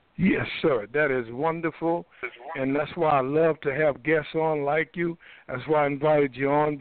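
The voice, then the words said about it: Slightly hoarse male voice. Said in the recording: “I'm a little hoarse myself this morning, this afternoon.”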